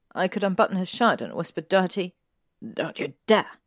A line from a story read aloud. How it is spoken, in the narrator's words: Draco snapped